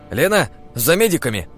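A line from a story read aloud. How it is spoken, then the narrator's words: Shouted. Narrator (Russian): крикнул Денис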